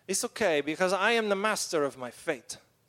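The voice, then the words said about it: Bad put-on Eastern European accent. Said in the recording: “I'm going to do a really bad Eastern European accent.”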